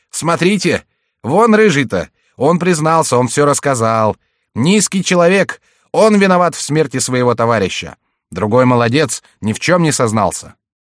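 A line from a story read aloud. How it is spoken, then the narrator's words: Crowd shouting. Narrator (Russian): Со всех сторон кричали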